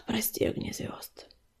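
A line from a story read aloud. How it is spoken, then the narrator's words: Disappointed sigh. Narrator (Russian): разочарованно вздохнул котик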